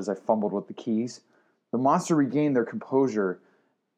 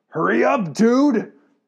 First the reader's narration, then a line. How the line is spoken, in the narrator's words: Locklear shouted